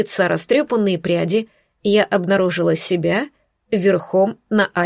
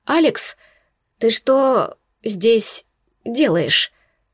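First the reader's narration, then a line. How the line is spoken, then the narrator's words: Strained. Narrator (Russian): выдавила я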